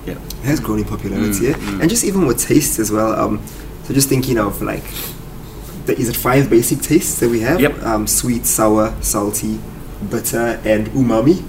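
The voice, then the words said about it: Exotic-sounding accent. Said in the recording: “It sounds real good in your accent. ... It does. It does. I'm going to say it sounds much better in your accent than mine. ... Sounds so exotic.”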